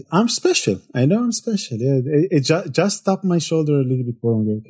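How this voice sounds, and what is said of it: Israeli-accented English. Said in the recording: “It's a very specific accent. No one can say it quite like he does. ... I'm coming originally from Israel. If you cannot hear it from the accent”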